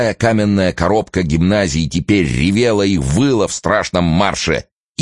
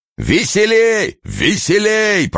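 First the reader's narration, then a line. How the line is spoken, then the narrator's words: Clear-voiced shouting. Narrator (Russian): прочищенным голосом кричал Мышлаевский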